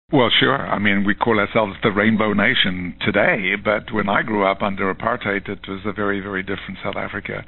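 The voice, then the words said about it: South African accent. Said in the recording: “the South African accent”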